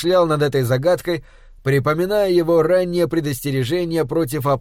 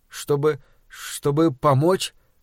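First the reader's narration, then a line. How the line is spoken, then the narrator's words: Stuttering. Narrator (Russian): заикаясь, произнес я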